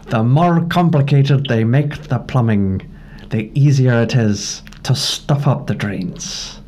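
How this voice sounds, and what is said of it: Deliberately poor Scottish character accent. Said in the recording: “my really terrible Scotty accent”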